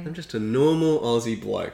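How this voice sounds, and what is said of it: Exaggerated, dialed-up accent. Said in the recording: “Oh, here we go. You dial up the accent.”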